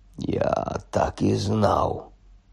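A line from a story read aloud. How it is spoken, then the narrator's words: Muttered. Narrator (Ukrainian): пробурмотів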